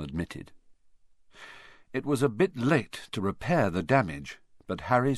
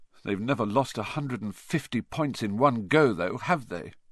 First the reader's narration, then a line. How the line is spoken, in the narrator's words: said Harry miserably